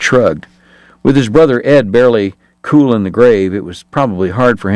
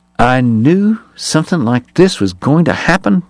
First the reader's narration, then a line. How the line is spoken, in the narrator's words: Bat muttered